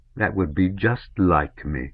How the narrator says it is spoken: said scornfully

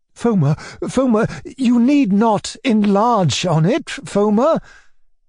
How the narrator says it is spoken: cried my uncle

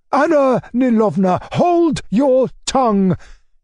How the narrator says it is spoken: cried my uncle

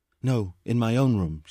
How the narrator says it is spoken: said

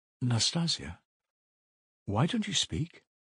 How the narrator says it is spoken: he said timidly at last in a weak voice

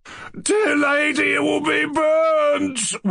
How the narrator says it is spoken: wailed Lebedev

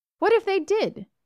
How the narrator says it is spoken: she exclaimed

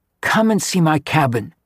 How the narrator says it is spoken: she pleaded

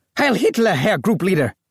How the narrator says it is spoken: yelped

